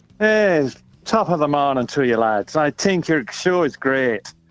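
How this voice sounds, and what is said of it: Fake-sounding Irish accent. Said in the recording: “Luck of the Irish over here. ... I'm getting the feeling that your accent is fake. Is it fake or are you really Irish?”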